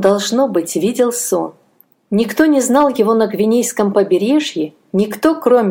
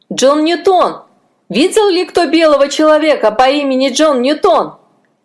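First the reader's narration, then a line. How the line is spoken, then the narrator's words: Shout. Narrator (Russian): кричал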